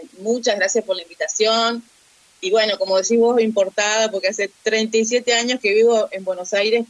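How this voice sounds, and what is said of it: Argentine provincial accent, dropped s. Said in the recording (Spanish): “como verán, con mi tonada y la falta de ese y qué sé yo, sigo siendo una provinciana”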